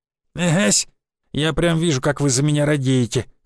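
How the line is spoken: Old man's snort. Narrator (Russian): хмыкнул дед

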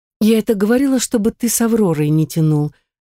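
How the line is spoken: Heavy sigh. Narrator (Russian): тяжело вздохнула королева

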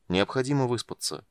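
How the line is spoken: Plain. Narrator (Russian): сказал Танис

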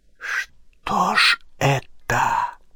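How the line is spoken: Bewildered whisper. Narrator (Russian): растерянно прошептал барон

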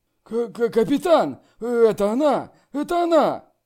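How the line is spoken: Excited shout. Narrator (Russian): Человек с топором взволнованно крикнул

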